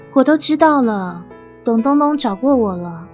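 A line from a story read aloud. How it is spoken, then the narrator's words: Sighing. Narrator (Chinese): 丽丽叹气说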